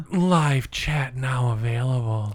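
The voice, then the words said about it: Sultry, seductive voice. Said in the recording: “sexy voice”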